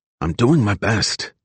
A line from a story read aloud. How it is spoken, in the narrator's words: Dino replied